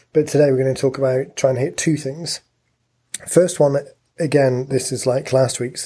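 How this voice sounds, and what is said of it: Croaky, strained voice. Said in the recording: “you might be able to hear that my voice is a little bit croaky again ... before it gives out”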